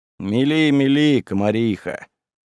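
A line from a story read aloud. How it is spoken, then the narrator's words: Weary, dismissive. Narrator (Russian): устало отмахнулся Кузьма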